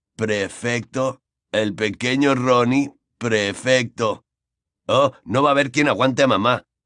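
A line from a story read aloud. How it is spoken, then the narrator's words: Grumbled. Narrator (Spanish): gruñó George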